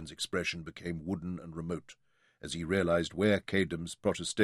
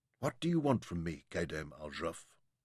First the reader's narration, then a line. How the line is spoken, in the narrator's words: asked softly